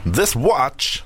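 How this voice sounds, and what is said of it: Christopher Walken impression. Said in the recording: “a Christopher Walken impression in just one phrase”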